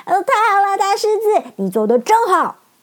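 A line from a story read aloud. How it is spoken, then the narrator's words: Happy shouting. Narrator (Chinese): 陶乐斯和铁樵夫都高兴的大叫起来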